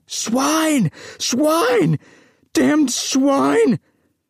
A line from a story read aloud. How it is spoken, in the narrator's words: shouting